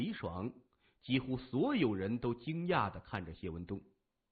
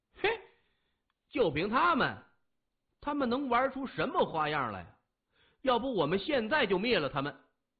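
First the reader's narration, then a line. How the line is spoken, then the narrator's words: Noisy clamoring. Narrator (Chinese): 李爽嚷嚷着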